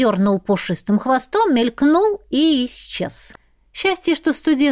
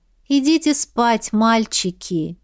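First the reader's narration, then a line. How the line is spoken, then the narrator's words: Sighing. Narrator (Russian): Вздохнула я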